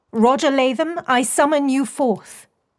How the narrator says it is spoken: Beatrix called, raising her voice

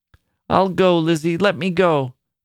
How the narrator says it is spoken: cried the old woman

